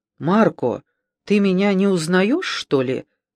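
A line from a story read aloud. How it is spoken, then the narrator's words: Calm question. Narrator (Russian): спросил он спокойно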